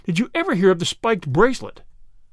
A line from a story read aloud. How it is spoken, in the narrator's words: cried Flambeau